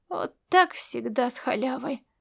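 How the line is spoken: Groan. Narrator (Russian): простонал Ласло

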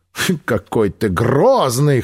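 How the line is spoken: Laughing, unafraid. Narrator (Russian): хохотнула Эви, ничуть не испугавшись

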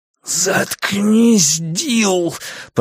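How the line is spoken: Growling. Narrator (Russian): прорычал парень

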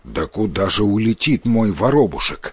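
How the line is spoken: Angry old man objecting. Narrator (Russian): сердито возразил старик

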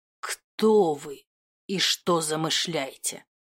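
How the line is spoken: Hissed through teeth. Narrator (Russian): процедил я сквозь зубы

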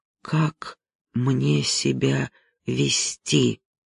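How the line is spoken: Quiet question. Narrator (Russian): тихо спросил я друга

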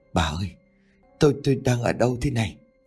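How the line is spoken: Old man, shaken, slurred. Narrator (Vietnamese): Ông Tuấn nỗi sợ hãi vô hình đã giảm đi phần nào, nhưng giọng vẫn nói vẫn không tròn chữ

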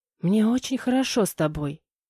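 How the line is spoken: Whisper. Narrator (Russian): прошептала

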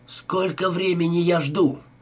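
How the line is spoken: Almost shouting. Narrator (Russian): Почти кричал Адам

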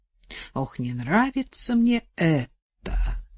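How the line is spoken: Colonel sighing in reply. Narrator (Russian): вздохнул в ответ полковник

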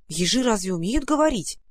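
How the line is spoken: Blunt exclamation. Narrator (Russian): не очень-то деликатно воскликнул Ивушкин

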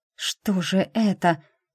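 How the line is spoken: Frightened whisper. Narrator (Russian): испуганно прошептала я

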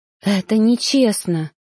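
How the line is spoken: Trembling whisper. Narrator (Russian): шептала я, чувствуя, как сильно меня трясет

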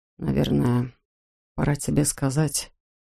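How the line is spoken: Quiet. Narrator (Russian): тихо проговорил он

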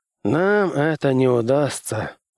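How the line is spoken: Weary objection. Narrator (Russian): устало возразил директор ЦРУ

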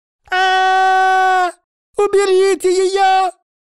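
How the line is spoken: Dragon squealing. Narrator (Russian): завизжала дракоша

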